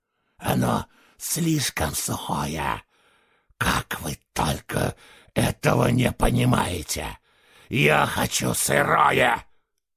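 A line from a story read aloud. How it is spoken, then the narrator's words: Growl. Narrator (Russian): Зарычал он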